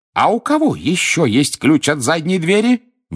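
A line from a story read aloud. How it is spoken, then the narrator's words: Shrill squeal. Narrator (Russian): взвизгнула кухарка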